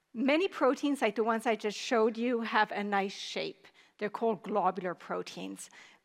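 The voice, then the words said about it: Hoarse, fading voice. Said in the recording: “you can see I'm losing my voice, I have a bit of a cold”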